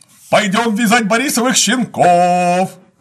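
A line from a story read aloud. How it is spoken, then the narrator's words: Shouting. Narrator (Russian): Кто-то закричал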